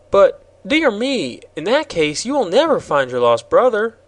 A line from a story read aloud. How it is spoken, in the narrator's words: exclaimed the girl